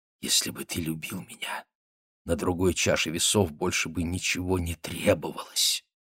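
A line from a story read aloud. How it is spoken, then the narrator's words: Sensual whisper. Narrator (Russian): губы ее чувственно приоткрылись, она прошептала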